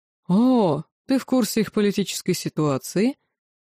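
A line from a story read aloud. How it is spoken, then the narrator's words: Mocking surprise. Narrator (Russian): насмешливо изумился Даррен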